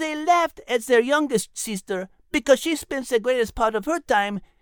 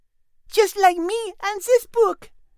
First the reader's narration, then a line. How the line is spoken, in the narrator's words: Marie said happily